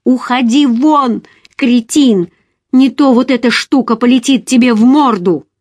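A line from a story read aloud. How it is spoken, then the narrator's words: Shouted. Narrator (Russian): закричала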